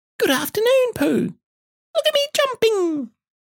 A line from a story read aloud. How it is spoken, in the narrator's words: squeaked Roo